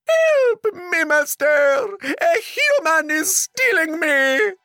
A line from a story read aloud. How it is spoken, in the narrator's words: The magic harp screamed